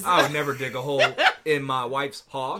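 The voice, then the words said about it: Put-on Cajun-style accent, poorly done. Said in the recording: “is that your British accent? ... No, that is not ... That sounded terrible ... Is that Southern? ... that's my gumbo talk ... that was the Cajun”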